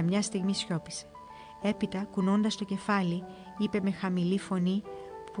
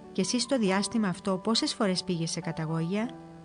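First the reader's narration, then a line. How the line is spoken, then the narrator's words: Calm question. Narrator (Greek): Ο Σιμεών το ρώτησε ήρεμα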